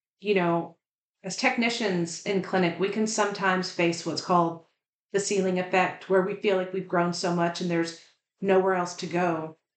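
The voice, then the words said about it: Slight Southern US accent. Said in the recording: “it becomes increasingly clear that I'm from the South and have a little bit of an accent.”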